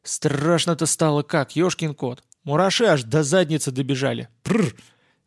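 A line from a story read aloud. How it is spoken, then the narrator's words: Cheerful shout. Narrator (Russian): весело выкрикнул Сашка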